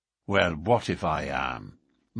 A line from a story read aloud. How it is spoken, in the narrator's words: McMurdo answered in a surly voice